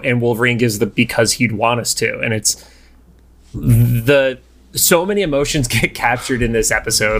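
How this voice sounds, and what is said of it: Choked-up, emotional voice. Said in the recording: “my voice is getting choked up”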